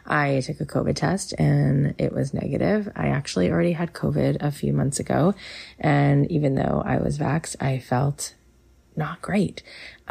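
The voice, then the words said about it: Slightly sick-sounding voice. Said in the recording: “I am a little under the weather today, so if you hear that in my voice, that's what's going on ... So if you hear it in my voice, that's why.”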